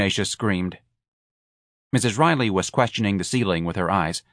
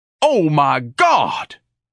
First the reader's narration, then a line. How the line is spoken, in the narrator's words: Ignatius bellowed